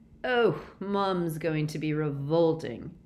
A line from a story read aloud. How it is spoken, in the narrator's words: groaned George